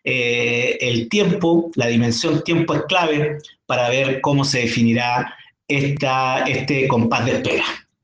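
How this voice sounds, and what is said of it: Chilean Spanish accent. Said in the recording (Spanish): “con un acento chileno, porque eh, allí nació, pero vive hace muchos años en territorio peruano”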